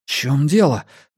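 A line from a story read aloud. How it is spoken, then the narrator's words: Shaky-voiced question. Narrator (Russian): дрогнувшим голосом спросил Энди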